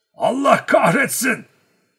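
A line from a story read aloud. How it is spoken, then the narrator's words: Shouted at someone. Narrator (Turkish): diye bağırdı ona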